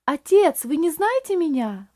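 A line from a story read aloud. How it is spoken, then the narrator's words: Strained exclamation, barely composed. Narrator (Russian): воскликнул Рейли, с трудом беря себя в руки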